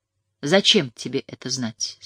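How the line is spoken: Soft question. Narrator (Russian): спросил он мягко

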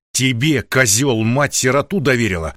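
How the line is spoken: Growl. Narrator (Russian): рычал Лосев

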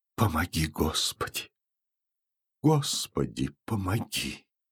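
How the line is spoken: Whispered repetition. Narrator (Russian): Платонида Ивановна шепотом повторяя

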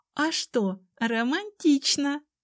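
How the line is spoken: Laughing remark. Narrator (Russian): заметила Тали, рассмеявшись

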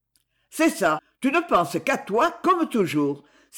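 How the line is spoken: Bitter exclamation. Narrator (French): s'écria aigrement Maxence

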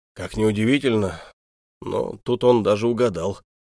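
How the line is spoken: Snorted. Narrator (Russian): хмыкнул Догораццо

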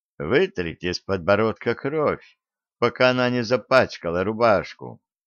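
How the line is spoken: Calm advice, woman. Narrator (Russian): посоветовала таким же спокойным голосом

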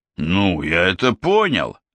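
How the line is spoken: Grumbling. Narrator (Russian): проворчал Бэкстрём

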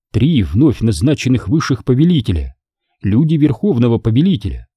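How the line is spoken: Plain. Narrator (Russian): сказала она

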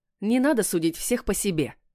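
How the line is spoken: Snapping retort. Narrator (Russian): огрызнулась Маша

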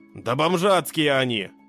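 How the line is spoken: Young man's snorting reply. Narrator (Russian): фыркнул в ответ парень

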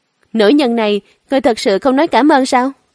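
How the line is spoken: Laughing. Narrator (Vietnamese): Lãnh Hạ bật cười

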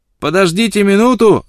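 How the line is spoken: Shouting. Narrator (Russian): закричал он

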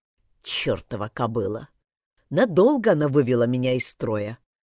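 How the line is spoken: Muttered. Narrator (Russian): пробормотал Тейтор

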